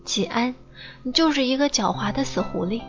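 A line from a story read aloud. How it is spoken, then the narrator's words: Laughing scolding. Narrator (Chinese): 笑着骂他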